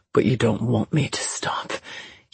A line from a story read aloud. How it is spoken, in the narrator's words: he murmured